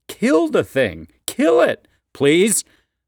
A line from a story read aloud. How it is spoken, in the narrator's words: the father cries, struggling to maintain his jovial showman's voice